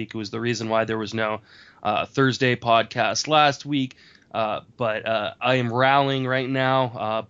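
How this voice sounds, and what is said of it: Congested voice from a cold. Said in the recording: “If you can't tell by my voice, I have been battling a pretty nasty cold for the last week”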